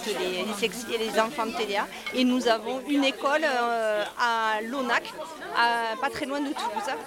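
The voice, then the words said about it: Southern French accent. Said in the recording (French): “Ça s'entend en tout cas, vous avez l'accent ... on a vraiment l'accent du sud”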